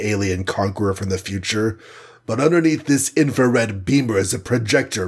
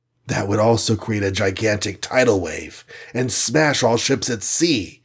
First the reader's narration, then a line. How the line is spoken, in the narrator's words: gasped Iron Man